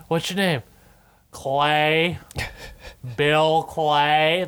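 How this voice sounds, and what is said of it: Unconvincing put-on American accent. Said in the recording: “I don't think it's a convincing American accent ... That's how he fucking talks ... But that accent...”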